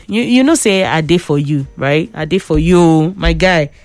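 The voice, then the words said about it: Preachy, sermon-like delivery. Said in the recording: “I sound like a preacher woman right now”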